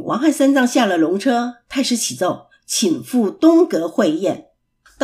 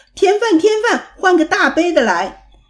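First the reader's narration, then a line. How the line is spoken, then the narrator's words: Clamoring with full mouth. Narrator (Chinese): 八戒 嘴里还嚷嚷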